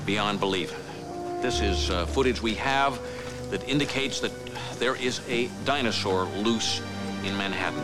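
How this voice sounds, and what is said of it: TV announcer voice. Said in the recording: “he's doing his announcer voice ... doing his announcer voice from The Simpsons, but it's also got some kind of, like, Johnny Carson”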